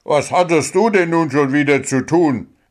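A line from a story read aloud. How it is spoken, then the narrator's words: Called out. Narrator (German): rief Schaufelchen seiner Torfrau zu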